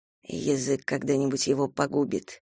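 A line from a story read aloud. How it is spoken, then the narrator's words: Muttered. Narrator (Russian): пробормотал Кастел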